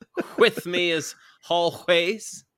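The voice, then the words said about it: Whimsical put-on accent, extra H sounds. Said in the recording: “all the extra H's you worked into that opening script ... That's got to be some kind of accent, right? ... the whimsical accent”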